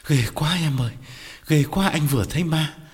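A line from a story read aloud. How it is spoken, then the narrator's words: Breathless frightened reply. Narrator (Vietnamese): Quán thở hổn hển đáp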